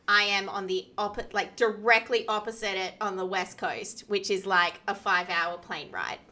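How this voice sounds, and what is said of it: Australian accent. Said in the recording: “based in Australia, obviously, by the sound of your accent”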